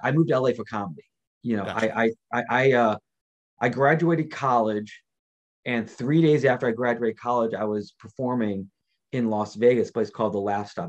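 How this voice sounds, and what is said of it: New York Queens accent. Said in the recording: “New York, okay. Queens. ... I hear it in your voice.”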